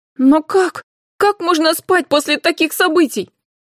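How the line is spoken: Emotional shout. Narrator (Russian): эмоционально выкрикнула Карина

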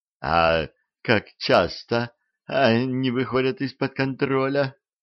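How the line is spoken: Trembling small girl's voice. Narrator (Russian): дрожащим голоском спросила Саманта, самая маленькая колдунья на потоке

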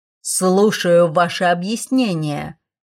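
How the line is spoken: Dean growling. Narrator (Russian): прорычал декан

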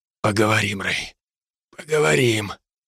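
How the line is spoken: Whispered. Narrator (Russian): прошептал Херифорд

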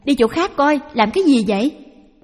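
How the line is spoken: Shouted. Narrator (Vietnamese): Thỉnh thoảng bà la lên

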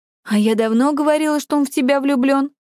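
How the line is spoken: Exclamation, female. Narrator (Russian): воскликнула Юми

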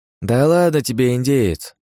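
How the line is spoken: Lazy reply. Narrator (Russian): лениво отозвался Богдан

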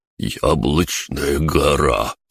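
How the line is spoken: Strange tone. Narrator (Russian): странным тоном произнес Бран

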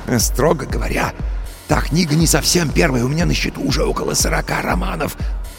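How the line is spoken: Self-important whisper. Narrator (Russian): важно зашептал Костя

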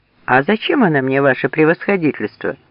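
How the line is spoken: Calm objection. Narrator (Russian): спокойно возразил поручик

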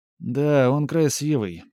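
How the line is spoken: Drawn-out drawl. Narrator (Russian): протянула Катерина Павловна

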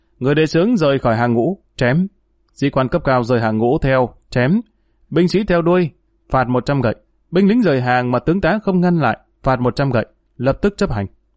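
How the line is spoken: Loud raised voice. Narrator (Vietnamese): Dương Lăng cao giọng lớn tiếng nói

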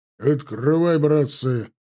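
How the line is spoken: Loud bark. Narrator (Russian): гаркнул он

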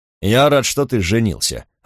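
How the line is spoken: Curt, clipped. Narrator (Russian): отрывисто сказал он

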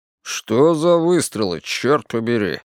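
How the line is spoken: Grumbled from the back. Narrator (Russian): пробурчал Вик с заднего сиденья

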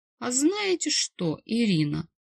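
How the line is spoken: Affectionate cooing. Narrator (Russian): проворковал ласково

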